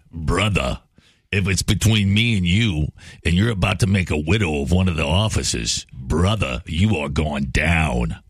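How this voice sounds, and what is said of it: Imitates another person's voice. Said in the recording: “my Al Pacino impression. ... That's not bad.”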